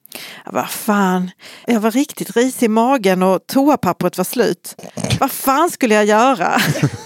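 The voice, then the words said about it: Put-on Scanian Swedish dialect. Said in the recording (Swedish): “Också på skånska.”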